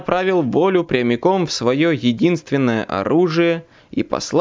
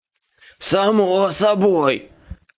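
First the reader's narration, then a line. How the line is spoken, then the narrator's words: Hoarse wheeze. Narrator (Russian): Прохрипел я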